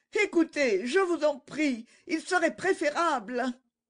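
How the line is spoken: Distraught exclamation. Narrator (French): Angélique s'exclama, l'air égaré

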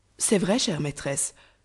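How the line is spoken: Exclaimed. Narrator (French): s'écria Nedjeb

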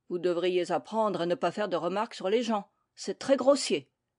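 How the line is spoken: Stern tone. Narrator (French): dit Alice d'un ton sévère

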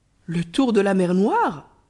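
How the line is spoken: Exclaimed. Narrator (French): s'écria Ahmet

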